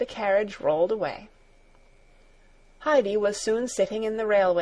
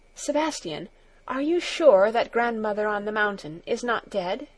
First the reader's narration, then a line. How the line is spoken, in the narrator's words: all of a sudden she said anxiously